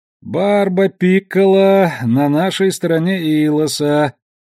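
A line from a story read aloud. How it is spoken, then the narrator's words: Sleepy, lazy voice. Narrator (Russian): тем же сонным ленивым голосом сообщил Алекс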